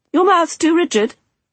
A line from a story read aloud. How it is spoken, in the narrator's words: she called out